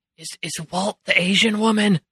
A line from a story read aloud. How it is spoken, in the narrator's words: Rodney whispers to Billy